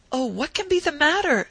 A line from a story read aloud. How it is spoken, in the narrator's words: exclaimed my aunt, shrinking from me